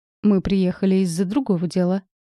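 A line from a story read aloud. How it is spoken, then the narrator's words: Calm but chilling. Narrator (Russian): спокойно сказал Макс, но от его голоса у всех забегали мурашки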